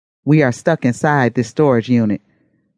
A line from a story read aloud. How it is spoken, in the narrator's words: Bless said